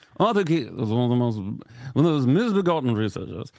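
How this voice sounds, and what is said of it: Poor put-on British accent. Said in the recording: “That was a horrible British accent.”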